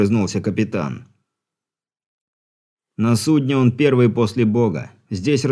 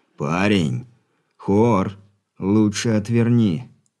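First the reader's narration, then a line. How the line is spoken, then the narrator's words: Through gritted teeth. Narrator (Russian): Сквозь зубы процедил Алексей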